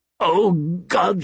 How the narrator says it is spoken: he said, choking on his laughter

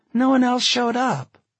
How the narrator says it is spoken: Jennifer said sadly

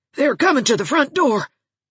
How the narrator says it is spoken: gasped Rebecca Dew, panic-stricken

